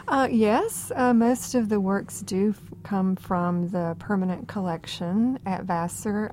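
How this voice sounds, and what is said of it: Georgia (US Southern) accent. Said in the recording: “Georgia accent ... It's that yes, Georgia accent”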